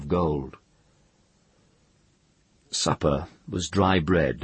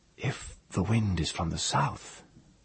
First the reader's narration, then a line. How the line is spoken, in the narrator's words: Tenar said, whispering because the sea did